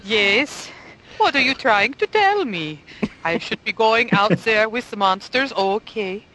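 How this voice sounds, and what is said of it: Horrible Scandinavian accent. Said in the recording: “one of my people from Sweden, or Norway, or Denmark ... that horrible accent”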